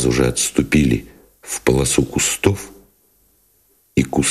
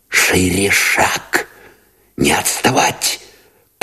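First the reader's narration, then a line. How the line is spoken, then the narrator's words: Urgent whisper. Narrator (Russian): поторопил шепотом Новиков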